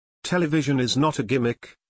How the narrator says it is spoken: Ailes said

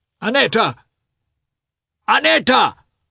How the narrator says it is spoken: said loudly, and the veins in his white neck protruded like thick cords

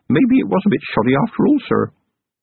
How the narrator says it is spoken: Feeney grinned nervously at Vimes and said

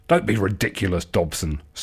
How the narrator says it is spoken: snorted Marigold Chew

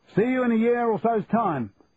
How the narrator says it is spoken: shouted Charlie

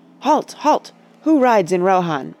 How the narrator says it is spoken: Eomer cried in a loud voice

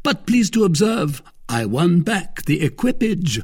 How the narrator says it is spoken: cried Athos

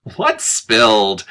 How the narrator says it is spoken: She asked brightly

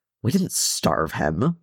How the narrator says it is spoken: Thorin grumbled

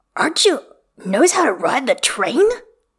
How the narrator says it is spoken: Jingyi hisses to Xichui

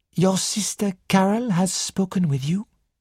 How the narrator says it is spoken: Poirot asked gently

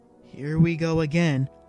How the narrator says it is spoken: The Gungan sighed heavily

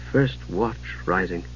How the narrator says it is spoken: Palin murmured

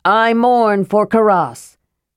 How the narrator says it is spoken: he shouted loudly

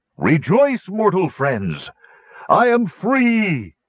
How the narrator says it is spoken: cried

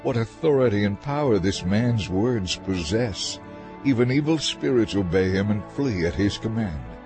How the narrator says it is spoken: Amazed, exclaimed

